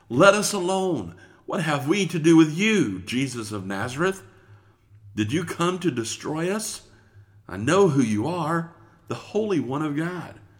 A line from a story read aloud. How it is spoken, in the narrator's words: he cried out with a loud voice, saying